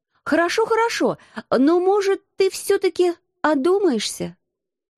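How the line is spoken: Timid pleading. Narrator (Russian): Малодушно взмолилась я

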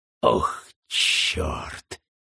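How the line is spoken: Breathed close by ear. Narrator (Russian): выдохнул Уэллон у меня над ухом

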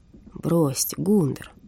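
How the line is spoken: Tired. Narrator (Russian): устало сказал Хиппель

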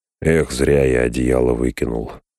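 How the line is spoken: Grumbling. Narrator (Russian): пробурчал Сэм

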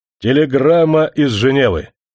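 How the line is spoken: Loud colonel. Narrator (Russian): другой полковник громко сказал Комуню Иванчу

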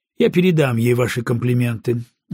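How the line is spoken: Dry reply. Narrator (Russian): ответил он сухо

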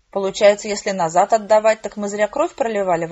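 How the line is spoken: Grumbling. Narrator (Russian): ворчал он

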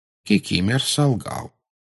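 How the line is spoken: Calm explanation. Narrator (Russian): спокойно объяснил Дамблдор

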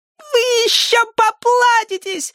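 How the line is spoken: Yelling. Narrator (Russian): орал Проныра

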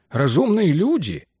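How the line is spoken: Laughing. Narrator (Russian): Портер рассмеялся

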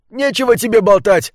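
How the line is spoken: Shouting, muffled by gas mask. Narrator (Russian): закричал на него человек в противогазе

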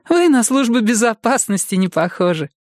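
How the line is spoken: Laughing. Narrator (Russian): рассмеялась Люми

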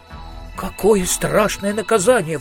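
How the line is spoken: Exclaimed. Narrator (Russian): воскликнул Маркоу

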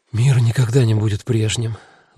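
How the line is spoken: Sigh. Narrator (Russian): вздохнула она

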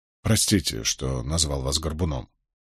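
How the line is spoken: Older youth mumbling apologetically. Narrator (Russian): пробормотал парень постарше

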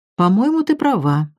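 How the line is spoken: Plain. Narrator (Russian): ответила та

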